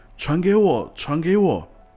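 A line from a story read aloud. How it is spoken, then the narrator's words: Shouting. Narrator (Chinese): 我大叫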